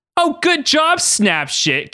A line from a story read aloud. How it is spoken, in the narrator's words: Katie yelled out angrily